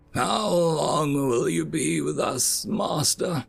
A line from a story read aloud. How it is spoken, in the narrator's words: spoke an elder hound, shakily stood